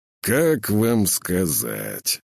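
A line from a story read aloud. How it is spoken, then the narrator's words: Drawn-out drawl. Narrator (Russian): протянул Псеков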